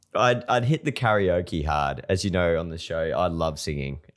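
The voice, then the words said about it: Croaky, hoarse voice. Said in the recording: “this little croaky frog ... the voice blew out on Saturday night and had not recovered by Monday morning ... it's still a bit croaky”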